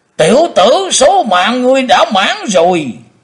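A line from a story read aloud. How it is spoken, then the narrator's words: Thunderous roar. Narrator (Vietnamese): Tử Diện Côn Luân gầm lên tạo sấm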